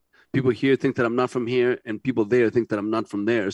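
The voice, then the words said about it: Chilean Spanish accent in English. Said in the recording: “I started to speak English when I was like in my mid-20s... When I go back to Chile... in Canada, I have an accent.”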